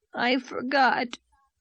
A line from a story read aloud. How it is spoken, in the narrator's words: whimpered Davy